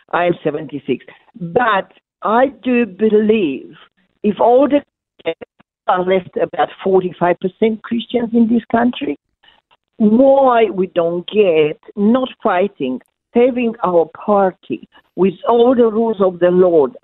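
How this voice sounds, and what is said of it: Strong foreign accent. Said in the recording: “my strong accent.”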